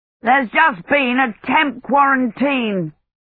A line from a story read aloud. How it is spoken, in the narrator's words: he shouted over the roar that seemed to get louder by the minute